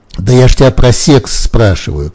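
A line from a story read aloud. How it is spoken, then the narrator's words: Shouting. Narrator (Russian): кричала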